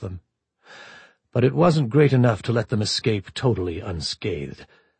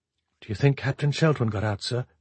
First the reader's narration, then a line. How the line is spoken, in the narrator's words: she asked quietly